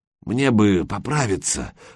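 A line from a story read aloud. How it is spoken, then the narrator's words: Strained wheeze. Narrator (Russian): сдавленно прохрипел Гучко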